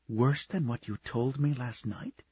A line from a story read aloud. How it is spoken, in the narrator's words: Her voice was soft, melting into him, soothing him